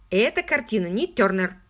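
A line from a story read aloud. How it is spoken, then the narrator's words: Coarse laugh. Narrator (Russian): Он засмеялся грубым смехом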